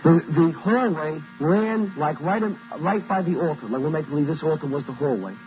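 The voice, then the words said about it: Brooklyn New York accent. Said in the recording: “my house was arranged back in Brooklyn, New York, as you can tell from my accent, I'm not from Mississippi”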